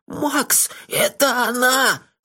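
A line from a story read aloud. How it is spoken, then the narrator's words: Hoarse. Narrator (Russian): хрипло сказал Мелифара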